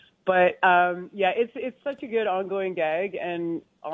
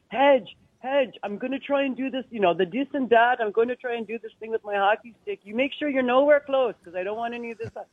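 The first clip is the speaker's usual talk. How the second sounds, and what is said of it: Deliberately bad put-on French accent. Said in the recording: “This is a terrible French accent that I'm trying to do”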